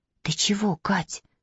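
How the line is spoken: Whispered question. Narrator (Russian): шепотом спросила Маня

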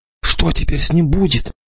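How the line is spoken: Whispered question. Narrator (Russian): шепотом спросил только Сажин

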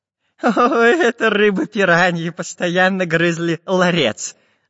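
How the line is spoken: Laughing professor. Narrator (Russian): засмеялся профессор Пыхтелкин

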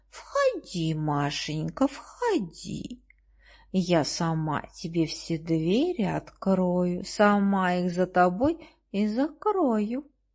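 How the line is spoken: Tender, affectionate. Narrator (Russian): И говорит она девочке так ласково

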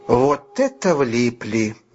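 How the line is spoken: Slow, catching breath. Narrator (Russian): медленно проговорил он, когда отдышался

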